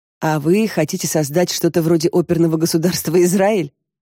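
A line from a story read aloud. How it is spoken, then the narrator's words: Laughing. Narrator (Russian): засмеялась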